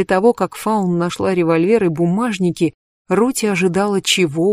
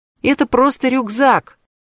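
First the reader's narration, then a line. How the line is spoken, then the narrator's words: Shouted. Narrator (Russian): крикнула Фаун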